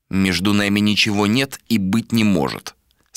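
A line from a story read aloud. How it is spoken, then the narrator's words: Plain. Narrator (Russian): сказал Адер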